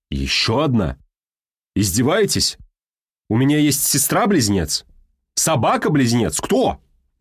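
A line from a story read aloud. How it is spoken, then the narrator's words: Shouting. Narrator (Russian): закричал Бочкин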